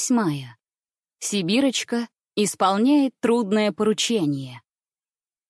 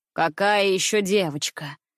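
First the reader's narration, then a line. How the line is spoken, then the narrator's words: Displeased grumble. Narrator (Russian): недовольным голосом проворчал Алмазин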